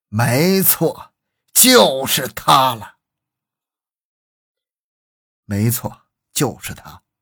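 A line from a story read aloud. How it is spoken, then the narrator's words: Suppressed excitement, long sigh. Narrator (Chinese): 他强压住自己内心的激动，长叹一声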